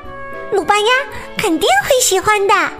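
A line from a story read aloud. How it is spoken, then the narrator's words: Excited shout. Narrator (Chinese): 卢比豆兴奋的大叫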